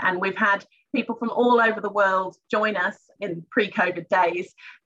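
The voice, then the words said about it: Foreign accent, not local. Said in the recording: “you've probably picked up on the accent, but I was on my OE”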